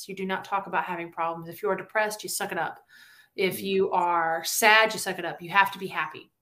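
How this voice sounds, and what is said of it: Southern American accent. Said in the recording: “We bring out that Southern accent.”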